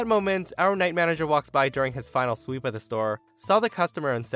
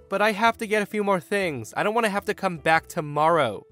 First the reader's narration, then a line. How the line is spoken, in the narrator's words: The woman then whines